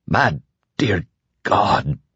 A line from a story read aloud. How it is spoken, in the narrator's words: Lloyd croaked